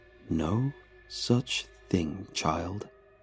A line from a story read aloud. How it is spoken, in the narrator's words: whispered